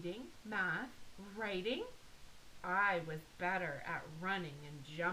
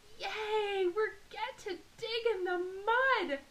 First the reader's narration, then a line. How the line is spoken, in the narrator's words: shouted